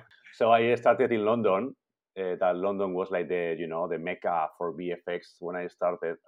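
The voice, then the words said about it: Spanish accent. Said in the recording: “I'm from Spain, as you can tell from my, you know, from ... My accent.”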